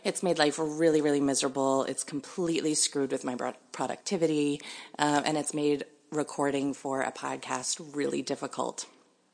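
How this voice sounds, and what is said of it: Sick-sounding voice. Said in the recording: “you may be able to hear it in my voice. I've been sick for like a month”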